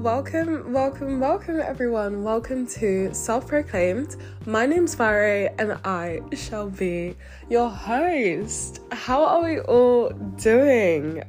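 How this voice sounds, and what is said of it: Congested, stuffy-nosed voice. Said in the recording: “I sound a bit congested”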